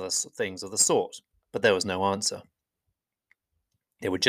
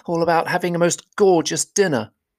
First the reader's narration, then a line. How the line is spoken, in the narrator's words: he grumbled